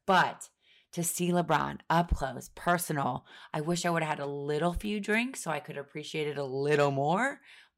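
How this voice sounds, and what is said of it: Husky, low sultry voice. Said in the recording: “I sound like a dirty phone sex operator”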